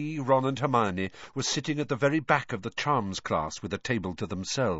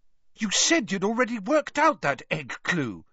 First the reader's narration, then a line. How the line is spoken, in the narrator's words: said Hermione indignantly